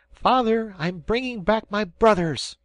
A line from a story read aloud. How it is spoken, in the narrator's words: cried Ernest